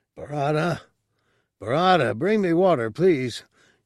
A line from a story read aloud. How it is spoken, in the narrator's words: he cried